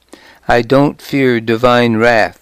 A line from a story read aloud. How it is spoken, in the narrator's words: said